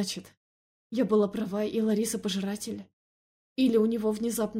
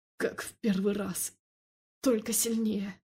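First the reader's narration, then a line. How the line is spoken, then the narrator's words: Breathless strained words. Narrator (Russian): выдавил он между вдохами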